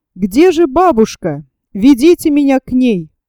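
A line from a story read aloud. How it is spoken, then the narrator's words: Loud. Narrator (Russian): громко сказал он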